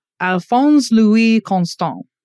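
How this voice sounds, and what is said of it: Put-on French accent. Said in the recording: “I'm going to try my best French accent here... that sounded pretty good to me”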